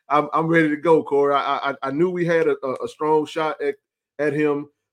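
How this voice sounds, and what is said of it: Excited, pumped-up voice. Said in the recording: “I'm pumped up. You probably can hear it in my voice,”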